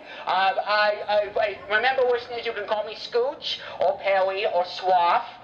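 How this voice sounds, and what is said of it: Put-on British accent. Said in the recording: “which is why you hear this British accent of mine”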